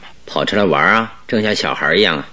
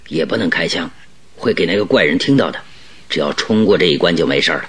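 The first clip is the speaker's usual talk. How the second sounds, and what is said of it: Whispering, quiet voice. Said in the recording (Chinese): “小声说”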